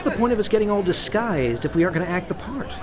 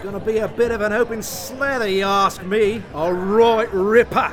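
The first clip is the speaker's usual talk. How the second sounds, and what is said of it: Put-on Australian accent. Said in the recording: “An Australian accent is all I can really do.”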